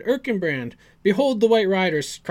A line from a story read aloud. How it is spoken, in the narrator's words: cried Aragorn